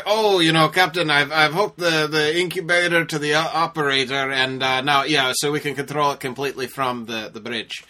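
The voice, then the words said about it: Poor put-on Scottish accent. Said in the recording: “That's not a good Scottish accent”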